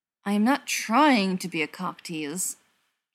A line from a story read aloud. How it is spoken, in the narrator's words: Jensen grit out through his teeth, leaning in so his nosy relatives wouldn't hear